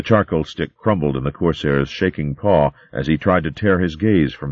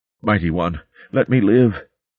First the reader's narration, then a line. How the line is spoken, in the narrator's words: he whimpered